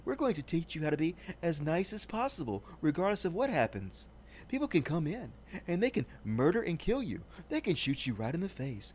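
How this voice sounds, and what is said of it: Low, calm mock-radio voice. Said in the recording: “in this low voice”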